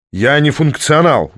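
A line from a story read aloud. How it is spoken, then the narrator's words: Sudden bark. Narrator (Russian): вдруг рявкнул политик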